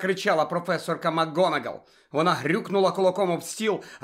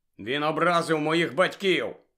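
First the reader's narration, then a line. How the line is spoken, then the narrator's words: Grumbling. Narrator (Ukrainian): буркнув Джордж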